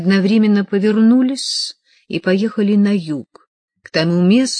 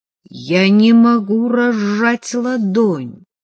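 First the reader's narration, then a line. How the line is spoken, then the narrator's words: Strangely strained voice. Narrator (Russian): Адам сказал странно напряженным голосом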